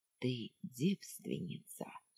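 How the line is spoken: Quiet command in ear. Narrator (Russian): тихо приказал на ухо

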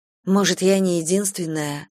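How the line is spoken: Plain. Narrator (Russian): сказала я

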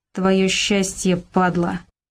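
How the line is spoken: Through gritted teeth. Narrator (Russian): процедил Валька

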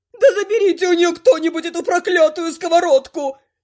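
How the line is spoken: Howling. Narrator (Russian): Взвыл тактик

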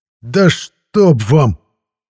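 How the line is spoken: Exasperated bark. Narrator (Russian): не выдержав, рявкнул я

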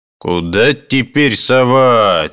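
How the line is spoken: Angry shout, portly footman. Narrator (Russian): сердито закричал дородный лакей

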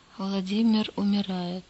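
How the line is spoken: Quiet. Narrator (Russian): тихо промолвил он

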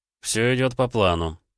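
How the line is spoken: Dry, matter-of-fact. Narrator (Russian): сухо проинформировал ломщик

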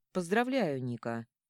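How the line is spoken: Restrained, dry. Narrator (Russian): сдержанно и сухо выдает он

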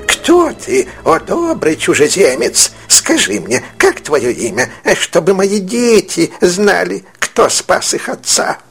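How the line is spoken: Tearful joyful exclamation. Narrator (Russian): Человек подбежал к Синбаду и воскликнул, плача от радости

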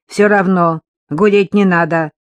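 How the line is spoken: Irritated grumble. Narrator (Russian): раздраженно буркнула девушка

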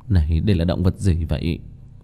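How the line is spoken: Dazed mutter. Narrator (Vietnamese): Kim Mẫn Cơ sắc mặt ngây ngẩn lẩm bẩm

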